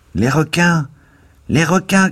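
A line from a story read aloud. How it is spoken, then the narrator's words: Voice shouting from window. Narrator (French): cria une voix à la fenêtre basse de la cabine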